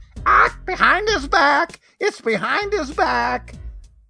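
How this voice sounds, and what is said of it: Squawky parrot voice. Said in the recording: “That is a really good parrot voice.”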